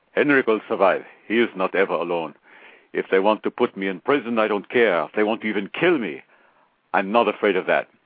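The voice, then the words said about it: Attempted Finnish accent. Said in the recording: “I'll try to get a Finnish accent here.”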